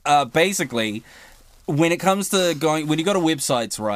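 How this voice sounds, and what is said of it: Usual voice. Nothing is said of it.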